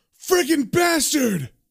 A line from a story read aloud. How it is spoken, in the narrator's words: yells